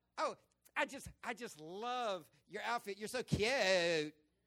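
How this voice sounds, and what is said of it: Mock California Valley girl accent. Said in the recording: “silly little girls faking of accent that they don't have... nobody outside of the valley in California speaks like that... take three letters and make four syllables”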